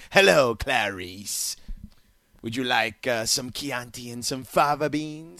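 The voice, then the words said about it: Imitates a movie villain's voice. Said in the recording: “a Anthony Hopkins Silence of the Lamb impersonation”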